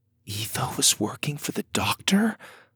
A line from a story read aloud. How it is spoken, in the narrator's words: Lydia whispered